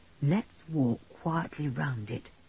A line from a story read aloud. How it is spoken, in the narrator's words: said Julian in a low voice